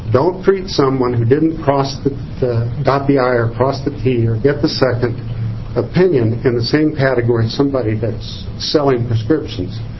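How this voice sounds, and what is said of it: Emotional, strained speaking voice. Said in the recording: “Yes, I'm getting emotional,”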